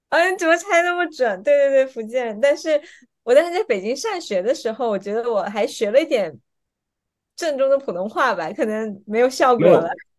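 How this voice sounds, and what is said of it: Southern Chinese accent, Fujian. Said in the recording (Chinese): “我听口音的话应该是南方人 ... 应该是福建或者浙江。 ... 口音一听就知道是南方人”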